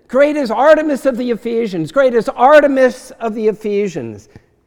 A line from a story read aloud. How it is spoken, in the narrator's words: some shout out of anger, some shout out of confusion